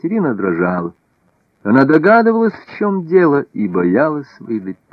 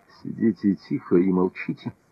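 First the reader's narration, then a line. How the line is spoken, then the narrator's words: Whisper. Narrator (Russian): Наполеон прошептал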